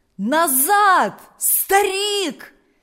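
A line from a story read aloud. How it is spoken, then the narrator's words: Villagers shouting. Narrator (Russian): закричали селяне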